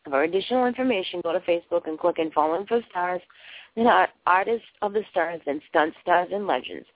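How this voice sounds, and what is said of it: Slightly hoarse, fading voice. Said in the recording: “I'm losing my voice a little bit here”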